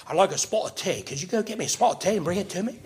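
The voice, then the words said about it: Put-on English accent, mixed up. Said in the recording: “I can't do a real good Irish accent. And I mix them all up. I'm Irish, English, and Australian. ... You're best at the English accent.”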